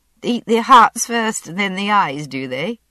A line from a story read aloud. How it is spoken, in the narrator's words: I said, laughing in spite of myself